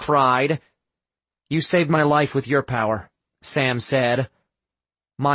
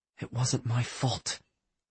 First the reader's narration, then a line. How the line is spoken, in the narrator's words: whispered